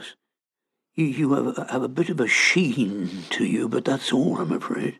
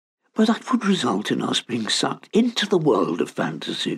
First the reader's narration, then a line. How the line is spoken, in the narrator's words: exclaimed Douglas